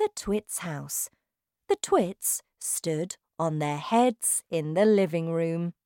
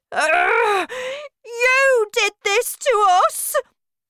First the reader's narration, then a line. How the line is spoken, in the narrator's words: she shouted